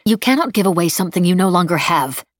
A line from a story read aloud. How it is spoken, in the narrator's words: Emily snapped